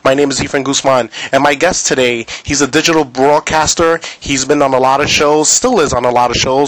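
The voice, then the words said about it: New York East Coast accent. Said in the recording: “your accent, your East Coast accent comes out ... with your New York accent, you just sound like you're pissed at the world”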